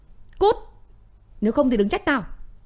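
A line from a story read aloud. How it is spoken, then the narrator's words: Aggressive shouting. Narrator (Vietnamese): hắn ta quát tháo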